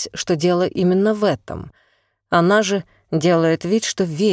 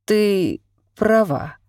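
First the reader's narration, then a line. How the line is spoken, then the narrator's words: Hoarse voice. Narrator (Russian): прозвучало сипло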